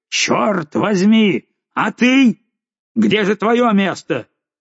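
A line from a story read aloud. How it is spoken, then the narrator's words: Furious murderous shouting. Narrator (Russian): Он кричал, словно собирался убить ее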